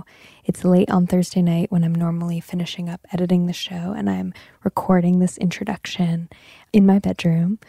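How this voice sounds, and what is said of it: Calm, intimate public radio voice. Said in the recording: “my public radio voice, which is definitely in full effect right now”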